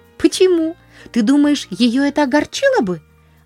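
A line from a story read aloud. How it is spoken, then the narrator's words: Worried exclamation. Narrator (Russian): воскликнула Полианна с беспокойством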